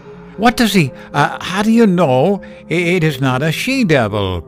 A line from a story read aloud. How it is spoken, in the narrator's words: cried her fiancé